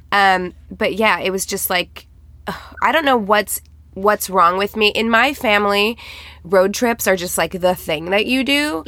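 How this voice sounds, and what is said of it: Tired, strained voice. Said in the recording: “I am so tired and run down. You can probably hear it in my voice. I'm straining a little bit.”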